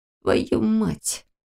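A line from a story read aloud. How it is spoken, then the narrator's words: Muttering through clenched teeth. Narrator (Russian): процедил Лерик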